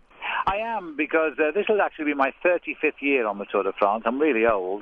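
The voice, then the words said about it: British accent. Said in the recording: “let me just hazard a guess by your accent that you're pretty excited that Tour de France is starting in London”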